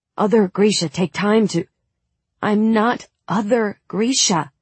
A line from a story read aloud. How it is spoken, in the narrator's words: I said, more harshly than I intended